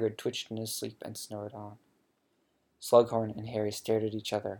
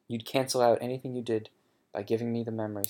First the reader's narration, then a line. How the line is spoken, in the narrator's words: said Harry